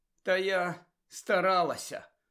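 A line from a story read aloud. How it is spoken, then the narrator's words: Tired. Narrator (Ukrainian): Втомлено сказала вона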